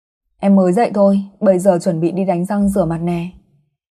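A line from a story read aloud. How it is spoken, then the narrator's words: Smiling reply. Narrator (Vietnamese): Tôi mỉm cười đáp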